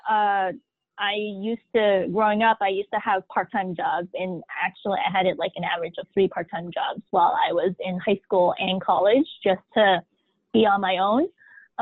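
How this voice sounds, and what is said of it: American English accent. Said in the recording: “You can hear the accent, the American accent in my voice.”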